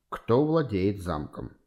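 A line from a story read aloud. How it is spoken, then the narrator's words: Quiet, casual, ingratiating question. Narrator (Russian): Безо всяких предисловий непринужденно спросил Кемпфер тихим вкрадчивым голосом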